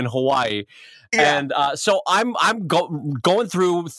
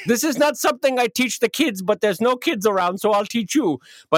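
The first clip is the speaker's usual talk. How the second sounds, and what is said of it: Bad put-on Swedish accent. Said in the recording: “this is the worst Swedish accent ever ... it's becoming German now”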